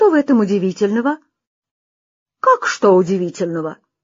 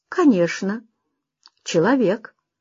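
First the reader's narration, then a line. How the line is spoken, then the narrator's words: Calm, disguised voice. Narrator (Russian): спокойно ответил Хаджан Насреддин, изменив свой голос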